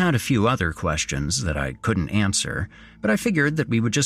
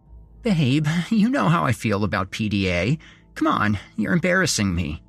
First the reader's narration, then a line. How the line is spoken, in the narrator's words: she giggled